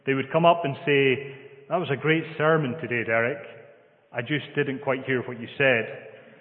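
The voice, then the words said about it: Scottish accent. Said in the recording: “my Scottish accent would get the better of me”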